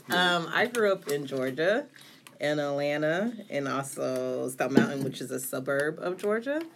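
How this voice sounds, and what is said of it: Slight Southern US twang. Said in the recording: “a little bit of southern twang”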